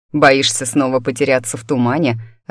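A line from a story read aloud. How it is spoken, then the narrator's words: Laughing. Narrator (Russian): рассмеялся Вик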